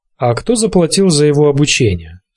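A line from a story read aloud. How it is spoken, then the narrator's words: Casual tone. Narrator (Russian): спросил Нет непринужденным тоном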